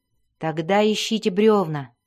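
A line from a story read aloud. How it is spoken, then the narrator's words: Plain. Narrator (Russian): сказал Дзирт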